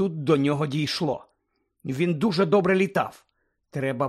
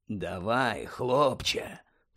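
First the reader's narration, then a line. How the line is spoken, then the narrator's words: Whisper. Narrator (Ukrainian): прошепотів Муді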